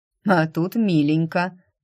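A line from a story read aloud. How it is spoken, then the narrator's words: Gloomy snort. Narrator (Russian): мрачно хмыкнула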